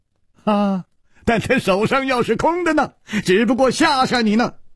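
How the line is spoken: Sudden laugh. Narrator (Chinese): 楚留香忽然笑了

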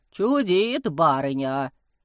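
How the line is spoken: Quiet low drone. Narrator (Russian): тихонько прогудел Потап

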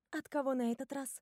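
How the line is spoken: Uncertain question. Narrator (Russian): неуверенно спрашиваю я

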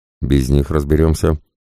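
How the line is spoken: Host's wry snort. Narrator (Russian): хмыкнул ведущий

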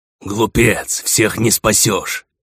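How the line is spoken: Angry. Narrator (Russian): зло произнес Лсаэрос

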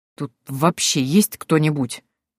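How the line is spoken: Disgusted gritted-teeth mutter. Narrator (Russian): процедил генерал, брезгливо

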